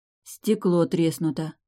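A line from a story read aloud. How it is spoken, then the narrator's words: Confused mutter. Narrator (Russian): растерянно пробормотала она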